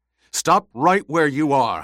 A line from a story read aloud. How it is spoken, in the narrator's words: Howitt barked